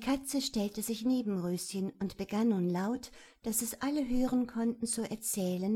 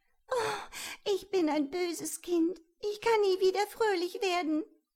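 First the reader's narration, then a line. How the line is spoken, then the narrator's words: Sobbing. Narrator (German): schluchzte sie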